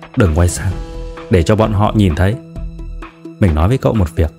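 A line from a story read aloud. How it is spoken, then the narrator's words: Low voice. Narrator (Vietnamese): cô bạn hạ giọng nói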